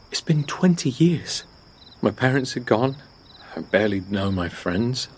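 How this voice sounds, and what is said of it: Pathetic, weak-sounding voice. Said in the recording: “My voice sounds pathetic in my own ears.”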